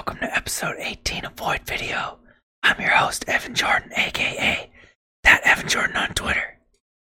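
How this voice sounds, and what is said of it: Whispering. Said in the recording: “Why are we whispering?”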